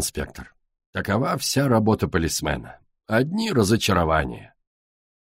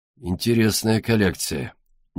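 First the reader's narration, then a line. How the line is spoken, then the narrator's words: Gloomy tone. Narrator (Russian): невеселым тоном молвил инспектор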